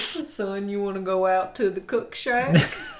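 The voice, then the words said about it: Mock Louisiana accent. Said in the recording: “I'm allowed to make fun of that accent, right? Because I'm from Louisiana.”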